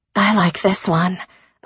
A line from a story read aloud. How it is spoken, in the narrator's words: Elise said quietly